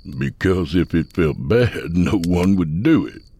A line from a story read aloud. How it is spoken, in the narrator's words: Sut said with a laugh